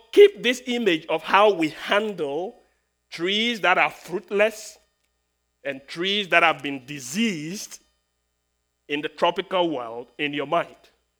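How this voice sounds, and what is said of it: Speaks with a noticeable accent. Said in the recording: “my funny accent”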